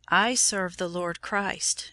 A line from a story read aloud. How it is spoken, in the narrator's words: she said